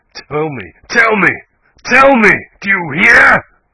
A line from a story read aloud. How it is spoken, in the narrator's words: he cried